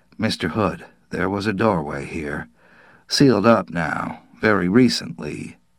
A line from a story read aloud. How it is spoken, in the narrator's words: the police captain said quietly